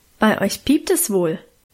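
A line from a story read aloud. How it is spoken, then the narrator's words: Plain. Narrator (German): sagte er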